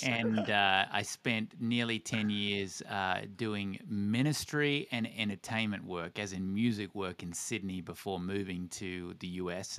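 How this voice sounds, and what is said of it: Australian (Tasmanian) accent. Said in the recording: “the accent you're hearing is Australian, born and raised Tasmanian”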